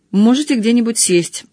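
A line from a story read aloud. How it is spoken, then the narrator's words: Gloomy. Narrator (Russian): сказал он мрачно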